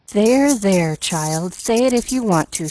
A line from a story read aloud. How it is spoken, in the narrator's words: she sighed